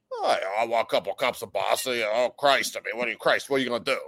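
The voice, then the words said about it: Impression of a podcast guest. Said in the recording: “Artie impersonation. You're pretty good. ... Do your Artie impersonation.”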